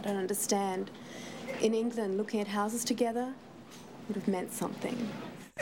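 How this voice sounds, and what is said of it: Bad put-on English accent. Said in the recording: “That accent is absolutely horrible.”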